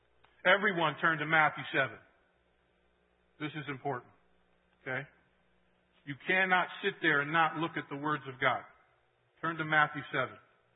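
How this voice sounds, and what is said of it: Yelling, loud voice. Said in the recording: “So if I'm yelling, I'm sorry. ... Yes, you're yelling.”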